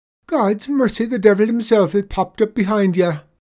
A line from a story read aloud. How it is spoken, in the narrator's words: he jumps backwards and cries out